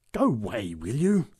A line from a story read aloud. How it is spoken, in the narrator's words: growled the big woman